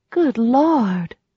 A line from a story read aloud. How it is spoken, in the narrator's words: breathed